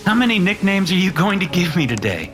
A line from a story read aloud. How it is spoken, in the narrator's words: Mitchell asked with a laugh